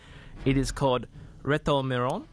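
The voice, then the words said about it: Mock Spanish accent. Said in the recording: “That's my best French accent. Not French, Spanish. Accent.”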